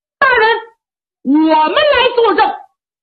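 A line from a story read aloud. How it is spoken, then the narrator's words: Loud shout. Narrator (Chinese): 下边有人高喊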